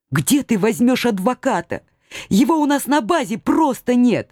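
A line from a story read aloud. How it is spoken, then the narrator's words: Soft sobbing. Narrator (Russian): Мягко всхлипывая, напомнила я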